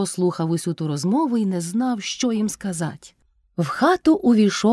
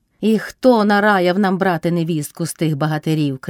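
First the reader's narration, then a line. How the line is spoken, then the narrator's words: Shouted. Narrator (Ukrainian): крикнула Кайдашиха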